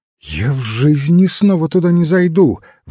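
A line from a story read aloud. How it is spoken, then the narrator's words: Exclamation. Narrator (Russian): воскликнула она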